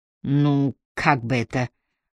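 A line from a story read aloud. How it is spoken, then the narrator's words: Drawled. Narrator (Russian): протянул Робертсон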